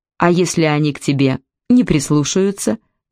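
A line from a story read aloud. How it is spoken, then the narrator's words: Laughing. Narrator (Russian): Не уловив намека, рассмеялась Кайса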